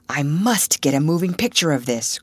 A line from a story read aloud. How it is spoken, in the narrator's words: cried Russ